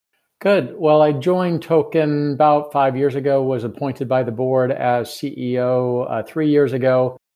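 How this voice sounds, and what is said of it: American accent. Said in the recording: “I'm an American, as you can tell from my accent”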